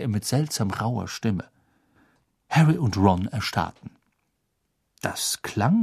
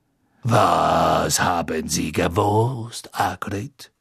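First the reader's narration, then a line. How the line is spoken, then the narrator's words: Soft purring voice. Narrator (German): sagte Madame Maxime mit einem deutlichen Schnurren in ihrer leisen Stimme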